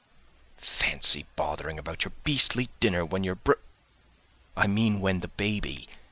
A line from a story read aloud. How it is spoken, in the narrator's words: Jane whispered hotly